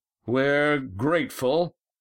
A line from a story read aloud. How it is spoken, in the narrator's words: Adraman shouting